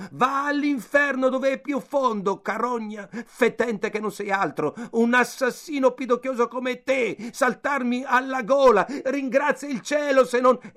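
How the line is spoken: Furious shouting. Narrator (Italian): si mise a gridare infuriato

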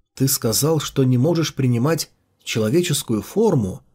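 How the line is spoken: Plain question. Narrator (Russian): спросил он наконец

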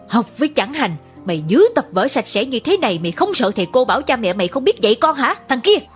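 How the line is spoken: Growling. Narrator (Vietnamese): gầm gừ

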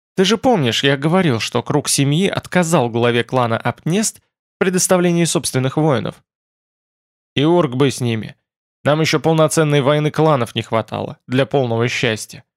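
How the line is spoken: Plain. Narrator (Russian): ответил Орлд

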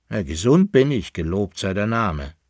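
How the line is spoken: Plain. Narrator (German): sagte der Altkleiderhändler

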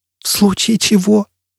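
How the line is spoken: Crazed voice. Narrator (Russian): безумным голосом повторила Джиз Белла

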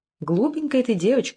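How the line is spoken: Answered laughing. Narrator (Russian): отвечала, смеясь Тафет

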